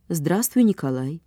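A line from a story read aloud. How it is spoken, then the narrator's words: Calm. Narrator (Russian): сказала она спокойно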